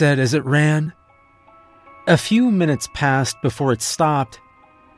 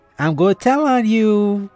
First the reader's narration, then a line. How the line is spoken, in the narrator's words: giggling